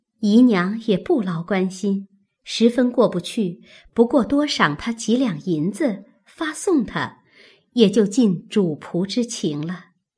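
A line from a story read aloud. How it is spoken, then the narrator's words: Laughing. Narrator (Chinese): 宝钗笑道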